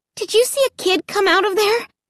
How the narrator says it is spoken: I asked breathlessly

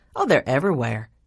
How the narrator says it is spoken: Kate Frances said cheerfully

